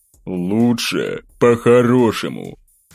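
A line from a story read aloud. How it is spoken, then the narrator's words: Menacing. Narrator (Russian): грозно добавил он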